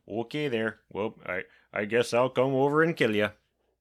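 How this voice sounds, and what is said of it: Put-on Wisconsin accent. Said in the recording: “Michael Myers with a Wisconsin accent”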